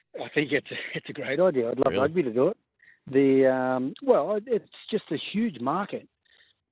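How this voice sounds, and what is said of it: Distinctive non-American accent. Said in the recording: “your accent. You've got that weird accent.”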